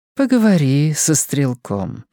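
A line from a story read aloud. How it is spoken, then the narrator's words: Gentle request. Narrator (Russian): ласково просит его мадам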